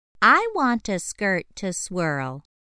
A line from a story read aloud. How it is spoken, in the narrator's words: chirped the bird